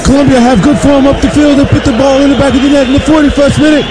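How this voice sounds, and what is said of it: Put-on British soccer announcer accent. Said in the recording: “All the accent I'll do is British. That's it. The British soccer announcers.”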